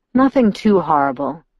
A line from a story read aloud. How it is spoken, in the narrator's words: he sighed